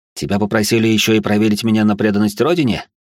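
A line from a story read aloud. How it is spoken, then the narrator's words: Smirking. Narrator (Russian): хмыкнул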